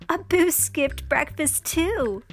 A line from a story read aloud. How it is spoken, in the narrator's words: Jasmine laughed